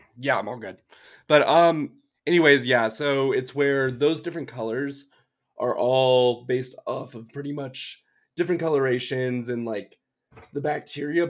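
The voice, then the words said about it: Slightly hoarse voice. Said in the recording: “my voice is a little hoarse,”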